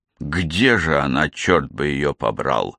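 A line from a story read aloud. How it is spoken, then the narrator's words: Displeased grumble. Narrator (Russian): недовольно буркнул Тревор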